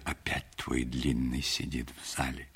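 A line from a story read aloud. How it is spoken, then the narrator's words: Whispered. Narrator (Russian): друзья шептали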